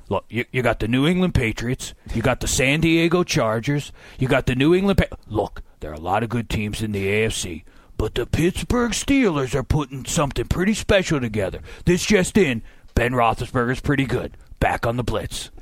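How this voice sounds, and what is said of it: Imitates another person's voice. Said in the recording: “I do one impression, and it's not great ... I like to do a Chris Berman”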